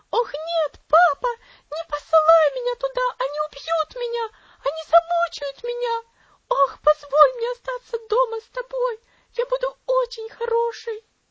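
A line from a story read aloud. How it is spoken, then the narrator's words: Wild frightened scream. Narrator (Russian): Элси вздрогнула и дико закричала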